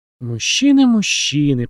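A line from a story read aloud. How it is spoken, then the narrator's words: Muttering. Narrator (Russian): пробормотала она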